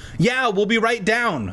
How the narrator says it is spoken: I shouted

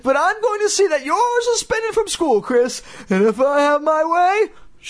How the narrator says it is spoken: she sputtered

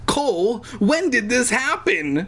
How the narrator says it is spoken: I shrieked

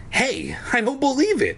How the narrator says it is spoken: I cried happily

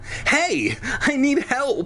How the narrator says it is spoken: I cried

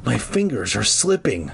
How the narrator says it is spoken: Clark groaned

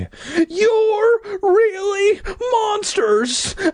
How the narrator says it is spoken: I screamed

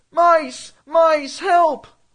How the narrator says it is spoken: Then I began shouting in a real panicky voice

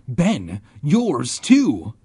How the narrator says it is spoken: I cried

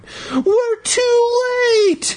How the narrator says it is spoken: Daniel cried

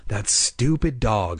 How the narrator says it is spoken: I muttered

